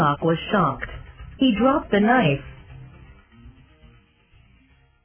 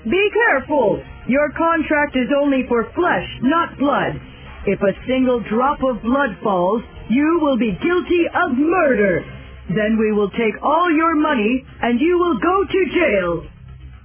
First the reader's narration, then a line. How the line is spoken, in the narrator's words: Portia shouted